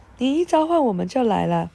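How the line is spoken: Warm, smiling, elderly. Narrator (Chinese): 一位上了年纪的小精灵微笑着……热情的说

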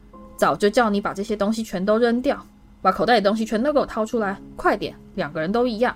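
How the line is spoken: Furious scolding. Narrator (Chinese): 卫斯理太太狂怒地斥道

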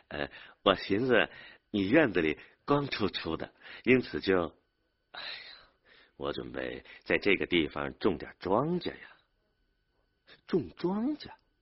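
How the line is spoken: Embarrassed laugh, slurred. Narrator (Chinese): 门牙不知怎么缺了半颗的张生民难为情的笑着，吐字不清的说

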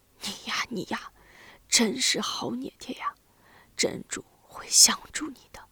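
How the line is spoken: Sighing father. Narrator (Chinese): 父亲叹了口气，说道

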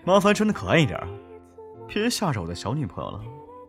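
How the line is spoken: Big tiger, laughing. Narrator (Chinese): 大老虎笑着跟他们说

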